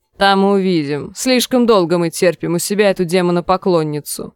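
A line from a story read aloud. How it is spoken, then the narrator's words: Grumbling. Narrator (Russian): проворчал Сакс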